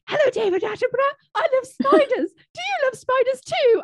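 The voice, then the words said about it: Imitates a posh young girl's voice. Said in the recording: “Did you like my Charlotte impression? ... She was the poshest out of all of them”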